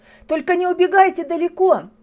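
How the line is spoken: Teacher shouting after someone. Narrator (Russian): крикнула вдогонку учительница

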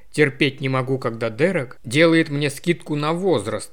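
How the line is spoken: Grumbled. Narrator (Russian): проворчал Томми

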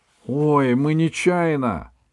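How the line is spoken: Squeaked. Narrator (Russian): пискнул на всякий случай Мишка

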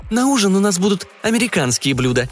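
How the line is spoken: Cheerful woman speaking. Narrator (Russian): весело сказала групповая мама

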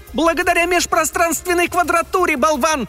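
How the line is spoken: Shrill squeal, bell. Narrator (Russian): завизжал колокольчик

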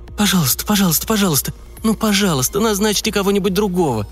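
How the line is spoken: Moaned. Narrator (Russian): простонала

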